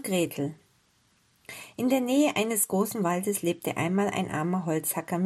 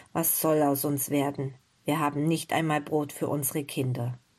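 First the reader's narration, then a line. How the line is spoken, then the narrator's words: Sighing poor man. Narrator (German): der arme Holzhacker wieder einmal keinen Schlaf und sagte seufzend zu seiner Frau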